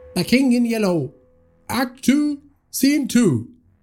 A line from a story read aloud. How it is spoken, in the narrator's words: someone shouted from the side of the stage